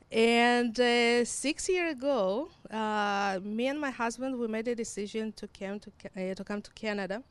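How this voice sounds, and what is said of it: Mixed Hebrew, Russian, Ukrainian accent. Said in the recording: “your accent is very different... It's a combination of Hebrew, Russian, and Ukraine”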